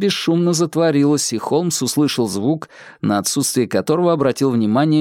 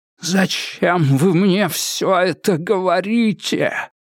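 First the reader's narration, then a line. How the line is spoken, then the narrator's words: Wheezed hoarsely. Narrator (Russian): просипел Адамс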